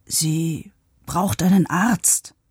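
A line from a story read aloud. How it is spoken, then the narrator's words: Whisper into silence. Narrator (German): flüsterte Pavo in die Stille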